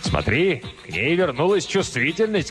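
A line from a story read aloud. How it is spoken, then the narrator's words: Shouting. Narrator (Russian): крикнул Кризераст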